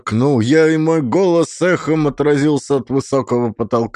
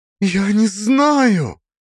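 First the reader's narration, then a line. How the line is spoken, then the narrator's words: Sobbing, shaking. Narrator (Russian): Она всхлипнула, ее плечи затряслись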